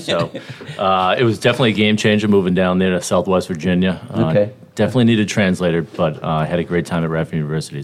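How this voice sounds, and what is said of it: Boston accent. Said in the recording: “Originally from Boston, Mass. You guys can probably tell my accent here. I'll try to tone it down.”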